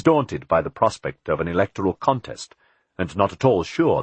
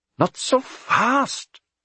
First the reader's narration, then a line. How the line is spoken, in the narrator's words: Philip said anxiously